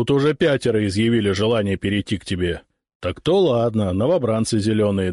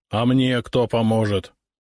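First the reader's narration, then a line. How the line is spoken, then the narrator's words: Grumbled. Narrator (Russian): проворчал сотник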